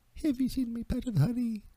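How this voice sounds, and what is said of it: Winnie the Pooh impression. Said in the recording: “you can't do Winnie the Pooh ... And here I come”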